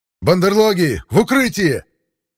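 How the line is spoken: Yelled amid gunfire. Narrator (Russian): Заорал я, едва мое обостренное восприятие услышало звуки выстрелов

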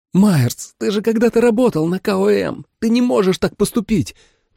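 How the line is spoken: Pleading. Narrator (Russian): взмолилась Джули

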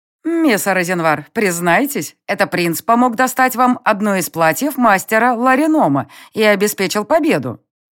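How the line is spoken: Loud, from behind. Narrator (Russian): громко заявили у меня за спиной

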